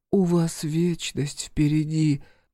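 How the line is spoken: Nasal remark. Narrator (Russian): гнусаво замечает Света

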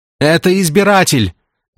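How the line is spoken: Woman yelling. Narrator (Russian): заорала защитница прав собачек

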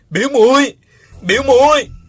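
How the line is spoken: Loud anguished cry. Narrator (Vietnamese): Uông Khiếu Phong nằm trên mặt đất, gào to

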